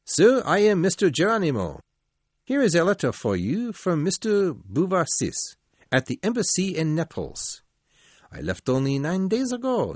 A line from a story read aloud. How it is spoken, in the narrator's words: he said cheerfully